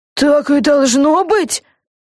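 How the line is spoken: Frightened question. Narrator (Russian): Испуганно спросила Люси

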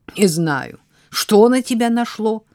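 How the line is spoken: Angry remark. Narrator (Russian): Сердито заметил Фил

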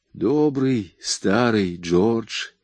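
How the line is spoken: Quiet. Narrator (Russian): тихо сказала она

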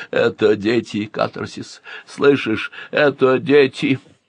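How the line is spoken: Hoarse broken whisper. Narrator (Russian): маэстро осевшим голосом шептал

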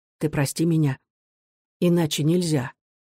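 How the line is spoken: Quiet, softer voice. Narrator (Russian): Негромко и мягче он сказал

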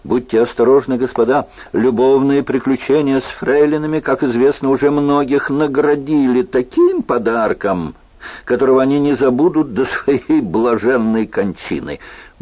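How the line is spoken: Shout from behind. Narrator (Russian): Сзади кто-то крикнул

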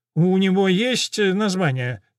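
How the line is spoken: Reporter's nasal voice. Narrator (Russian): раздается гнусавый голос репортера

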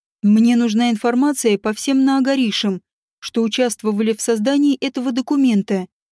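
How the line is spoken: Plain. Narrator (Russian): сказал он библиотекарю

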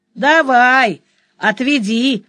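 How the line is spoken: Chuckling youth. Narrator (Russian): хохотнул парнишка

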